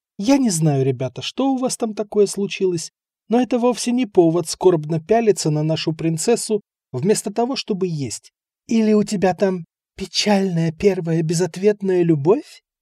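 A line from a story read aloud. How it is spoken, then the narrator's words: Near whisper in ear. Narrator (Russian): Тернер последние слова практически прошептала в ухо Малькольму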